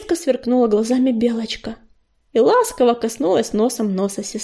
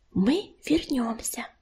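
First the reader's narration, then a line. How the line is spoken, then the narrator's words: Whisper. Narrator (Russian): прошептала она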